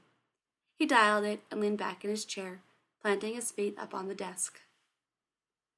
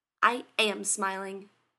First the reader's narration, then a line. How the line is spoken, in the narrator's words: he snapped